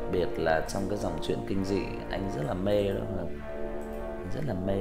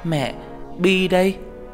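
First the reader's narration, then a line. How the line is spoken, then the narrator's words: Girl's crying shout. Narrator (Vietnamese): Con bé vừa khóc hét lên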